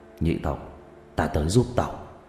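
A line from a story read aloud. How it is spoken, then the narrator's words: Muttering under breath. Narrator (Vietnamese): Người đàn ông lẩm bẩm trong miệng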